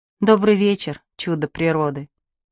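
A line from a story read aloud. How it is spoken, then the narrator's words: Soft. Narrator (Russian): сказала мягко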